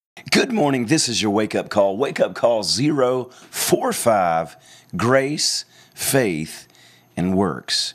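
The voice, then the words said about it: Slightly hoarse voice. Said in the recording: “I'm just a little bit hoarse today”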